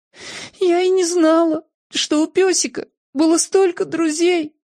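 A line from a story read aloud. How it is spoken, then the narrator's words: Sobbing. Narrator (Russian): всхлипнула Сьюзен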